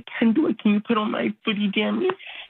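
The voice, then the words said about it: Baby voice. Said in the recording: “You talked in a baby voice? ... You went to baby voice, huh?”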